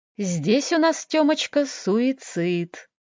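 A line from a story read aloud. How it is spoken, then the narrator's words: Singsong. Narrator (Russian): нараспев произнес эксперт Стасик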